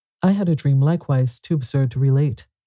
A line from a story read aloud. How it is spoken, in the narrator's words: said Madame Larson